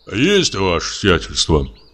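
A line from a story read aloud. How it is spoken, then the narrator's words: Deep bass voice. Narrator (Russian): пробасил одноглазый Кузьма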